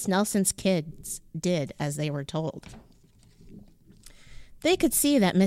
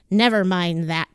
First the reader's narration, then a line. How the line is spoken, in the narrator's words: snapped Miss Swamp